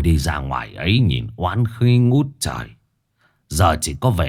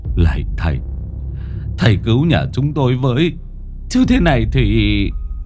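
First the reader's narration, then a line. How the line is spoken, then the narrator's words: Trembling plea. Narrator (Vietnamese): Bác Đại run rẩy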